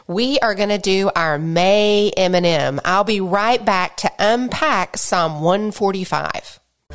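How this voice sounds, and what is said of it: Voice affected by a cold. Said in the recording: “I have a bit of a cold, so I hope I don't sound too strange”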